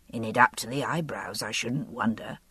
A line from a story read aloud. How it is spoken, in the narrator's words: he murmured to himself